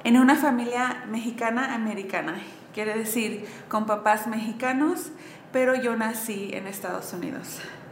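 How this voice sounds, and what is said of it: Noticeable American accent in Spanish. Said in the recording (Spanish): “como escuchan mi acento, yo crecí en sur de California”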